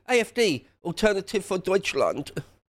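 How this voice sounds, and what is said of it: Bad put-on German accent. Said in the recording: “That was a bad German accent, wasn't it? None of my accents are great”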